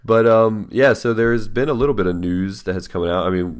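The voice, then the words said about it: Rough, congested voice. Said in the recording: “I'm recovering from a cold. So my voice is a little, you know, right now”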